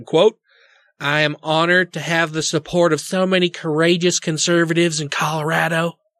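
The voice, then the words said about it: Put-on nasal Canadian-sounding accent. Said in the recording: “Is that a Canadian accent? ... I was trying to sound like just somebody wanted to punch really hard. ... It's hard to do a Cuban Canadian accent. ... nasal asshole?”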